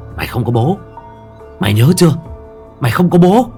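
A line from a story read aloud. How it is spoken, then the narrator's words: Cruel woman hissing. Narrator (Vietnamese): cái miệng tàn độc của người đàn bà lại rít lên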